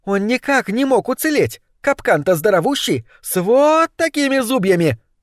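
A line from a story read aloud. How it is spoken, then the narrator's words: Exclaimed. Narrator (Russian): воскликнула злокозня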